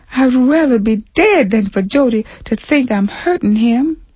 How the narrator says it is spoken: she sobbed to Phoebe

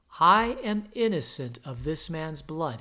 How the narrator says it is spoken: he said

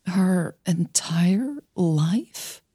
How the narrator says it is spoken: She asked, her voice shaky

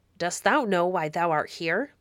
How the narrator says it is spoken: said the baron in his deep, harsh voice

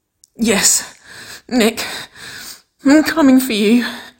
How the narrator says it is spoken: Waverly sobbed, her pitch strained and her words broken

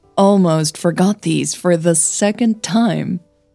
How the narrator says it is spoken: chuckled

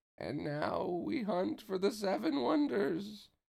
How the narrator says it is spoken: Pence said in a creepy voice, grinning with anticipation

